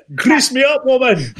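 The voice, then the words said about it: Mock Scottish accent, Groundskeeper Willie. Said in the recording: “There's how you do a Scottish accent”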